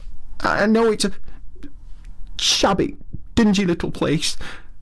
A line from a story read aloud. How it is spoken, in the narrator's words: sobbed forth at last, brokenly